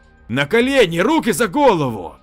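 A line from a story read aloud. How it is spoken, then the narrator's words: Near shout. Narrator (Russian): Лев почти крикнул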